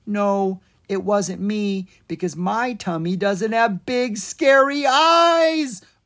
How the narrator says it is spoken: Owen shouted

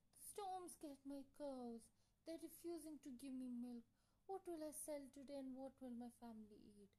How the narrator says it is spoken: Sadly, said

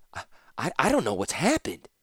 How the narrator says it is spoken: Ratapi stammered

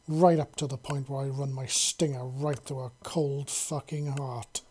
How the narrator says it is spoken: Vizzy snarled

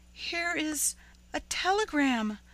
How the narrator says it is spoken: she gasped

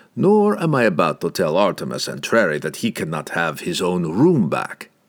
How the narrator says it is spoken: said Pook

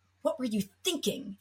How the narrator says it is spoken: Jeremy snapped

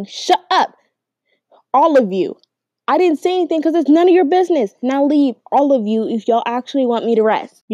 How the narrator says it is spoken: him yelling

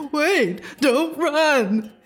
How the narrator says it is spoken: he cried

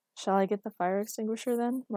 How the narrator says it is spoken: Marcus asked dryly

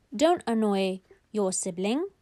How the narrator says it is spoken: very calmly

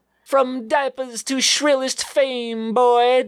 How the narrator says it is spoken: Dad shrieked

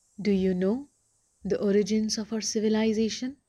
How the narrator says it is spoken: asked Vashisht

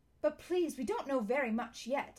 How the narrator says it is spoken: said a noisy and snorty kind of voice

